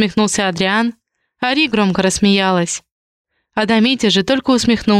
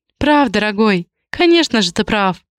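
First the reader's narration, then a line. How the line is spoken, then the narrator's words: Laughing loudly. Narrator (Russian): хохотала Ри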